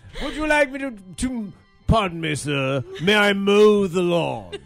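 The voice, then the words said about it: Classy posh put-on accent. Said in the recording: “I loved your accent. Very classy. ... Very, very classy. Too nice for this show. Very classy.”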